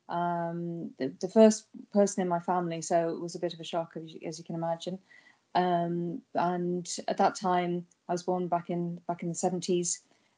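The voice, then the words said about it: British accent. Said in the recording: “probably you can tell from my accent that I'm not originally from these isles. So I'm from Britain originally, from the UK”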